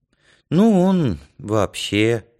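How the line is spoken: Sigh. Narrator (Russian): вздохнул Янка

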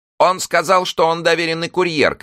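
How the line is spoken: Shouting voice. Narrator (Russian): кричал один голос

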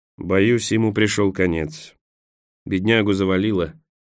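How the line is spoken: Plain. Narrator (Russian): сказал спутница Николас

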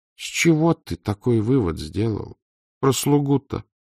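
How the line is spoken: Dejected question. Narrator (Russian): упавшим голосом спросил надворный советник

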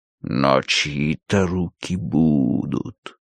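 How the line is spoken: Silky voice. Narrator (Russian): ответил Сирке своим шелковым голосом

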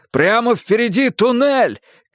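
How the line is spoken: Shout. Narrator (Russian): крикнул ей Эрик

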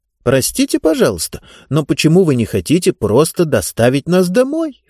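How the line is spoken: Pleading. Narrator (Russian): взмолилась Диба

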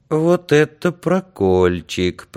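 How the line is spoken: Sad. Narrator (Russian): проговорил Андрюшка печально

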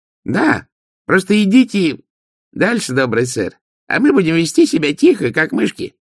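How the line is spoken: Shrill voice. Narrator (Russian): сказал визгливый голос позади

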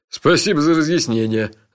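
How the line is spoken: Laughing. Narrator (Russian): рассмеялся Джуфин

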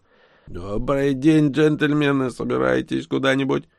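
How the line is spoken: Creaky rasp. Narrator (Russian): Марсианин проскрипел

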